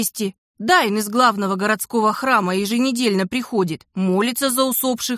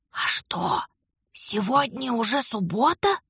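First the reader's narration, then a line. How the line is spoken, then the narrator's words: Whispered question. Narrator (Russian): Шепотом поинтересовался левый страж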